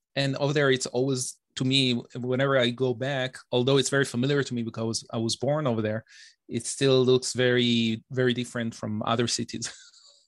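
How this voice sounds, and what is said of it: Israeli accent with slight Canadian tinge. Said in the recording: “I'd certainly detect a Canadian or French accent in there ... it's actually my Israeli accent ... I'm hearing like a Canadian thing happening in my ear”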